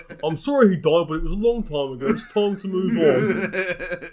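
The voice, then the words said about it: Imitates a character's voice. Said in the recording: “You could read that in a Garth Marenghi voice”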